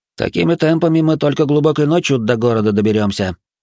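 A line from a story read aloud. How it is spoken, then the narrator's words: Grumble. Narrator (Russian): ворчал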